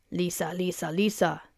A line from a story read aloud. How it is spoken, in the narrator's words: chanted in his raspy voice